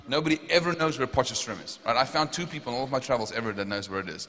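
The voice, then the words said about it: South African accent. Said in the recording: “oh, you have a South African accent, right? ... you have a South African accent. I was like, wow, that's pretty good.”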